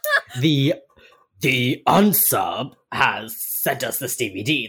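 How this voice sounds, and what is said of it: Imitates a TV character's voice. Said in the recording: “learning fucking ventriloquism and impersonation ... Perfect ... mimicry ... you are perfect. Just spot fucking on.”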